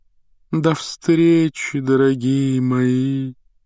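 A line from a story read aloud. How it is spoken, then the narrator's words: Sepulchral breathy voice. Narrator (Russian): за могильным голосом выдохнула Трелони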